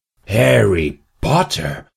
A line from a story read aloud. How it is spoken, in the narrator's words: gasped the vendor